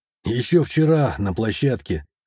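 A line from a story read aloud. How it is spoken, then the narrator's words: Relaxed smirk. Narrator (Russian): хмыкнул я, стараясь расслабиться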